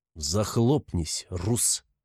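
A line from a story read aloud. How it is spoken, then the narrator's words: Through gritted teeth. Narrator (Russian): цежу сквозь зубы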